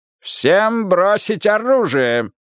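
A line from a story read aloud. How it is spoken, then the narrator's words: Loud, clear command. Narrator (Russian): громко и четко скомандовал Мигель Карьерос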